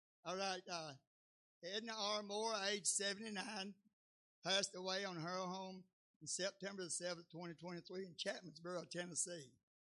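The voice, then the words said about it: Southern drawl. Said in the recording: “Southern drawl”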